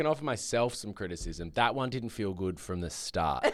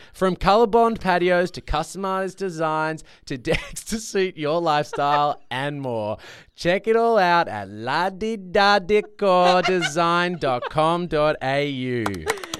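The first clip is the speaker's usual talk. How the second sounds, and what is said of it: Weird put-on accent. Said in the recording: “you did put on a weird little accent ... It was a bit strange.”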